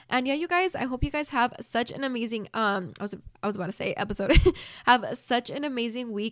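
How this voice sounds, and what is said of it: Rough, unwell-sounding voice. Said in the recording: “sorry for my voice. It probably sounds disgusting and I cannot stand it”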